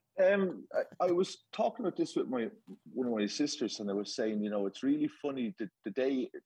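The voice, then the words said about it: Irish accent. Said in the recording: “I think your listeners can gather by my accent. I come from that part of that little island off the coast of England”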